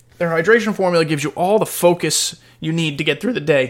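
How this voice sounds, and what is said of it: Voice cracks high. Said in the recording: “my voice cracked. I'm fucking Mickey Mouse.”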